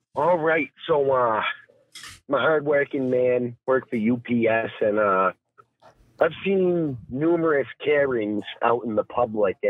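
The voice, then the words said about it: Maine accent. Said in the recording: “you got a nice accent there ... I kind of got the Maine accent”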